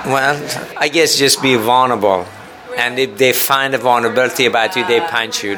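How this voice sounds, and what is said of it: Israeli-Iranian accented English. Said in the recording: “You have an accent. ... I'm Israeli and Iranian.”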